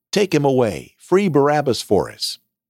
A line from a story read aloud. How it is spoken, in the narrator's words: The whole crowd then shouted